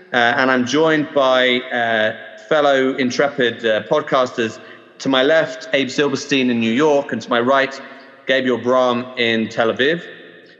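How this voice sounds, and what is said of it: British English accent. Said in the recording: “I'm originally from the UK, as you can probably tell from my accent.”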